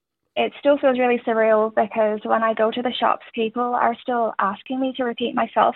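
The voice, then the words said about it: Irish accent. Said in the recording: “an Irish accent ... the Irish ... It's a fun accent”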